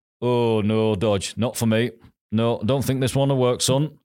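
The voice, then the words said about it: Imitated Northern English accent. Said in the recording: “his Northern accent”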